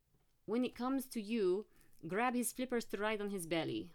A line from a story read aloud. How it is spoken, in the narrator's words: Mathieu said in his thick French accent